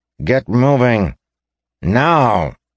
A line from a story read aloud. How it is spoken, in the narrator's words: he snarled, his voice like a crack of a whip